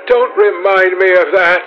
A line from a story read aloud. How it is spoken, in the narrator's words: cried Dorian Gray